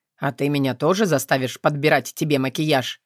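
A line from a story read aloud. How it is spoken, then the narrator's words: Snorting. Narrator (Russian): Я фыркнула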